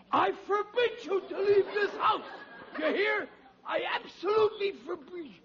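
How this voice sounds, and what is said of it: Hoarse voice from repeated shouting. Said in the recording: “I'm getting hoarse.”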